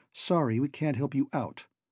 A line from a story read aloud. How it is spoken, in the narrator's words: said Rhodes stiffly